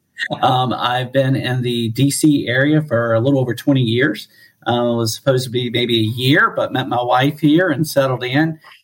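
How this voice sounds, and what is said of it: North Carolina Southern accent. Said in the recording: “I'm originally from North Carolina, so that's where this accent comes from”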